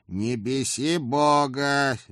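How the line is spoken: Restrained growl. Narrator (Russian): сдержанно рыкнул Эд

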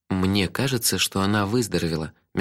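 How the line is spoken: Soft, gentle. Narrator (Russian): мягко сказал я

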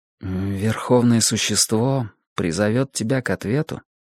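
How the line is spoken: Quiet. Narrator (Russian): тихо договорил я

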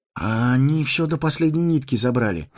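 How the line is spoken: Sigh. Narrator (Russian): вздохнул Фродо

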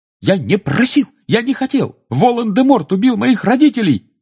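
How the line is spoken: Choking, sobbing shout. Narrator (Russian): Захлебываясь, прокричал Гарри

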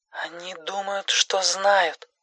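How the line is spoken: Quiet, hushed. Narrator (Russian): ответила она тихим голосом, словно пытаясь, чтобы ее никто не услышал

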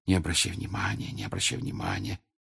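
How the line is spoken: Repeated whisper. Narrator (Russian): Гермиона все время твердя шепотом

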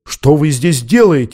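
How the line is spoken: Indignant female exclamation. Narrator (Russian): возмущенно воскликнула она

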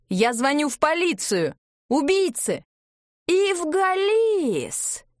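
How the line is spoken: Several voices shouting. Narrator (Russian): выкрикнули сразу несколько голосов

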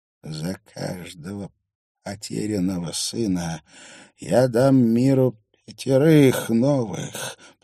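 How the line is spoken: Hoarse rasp in ear. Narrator (Russian): прохрипел он ей в ухо

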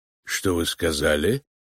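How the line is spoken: Cold. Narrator (Russian): холодно проговорил Финджи

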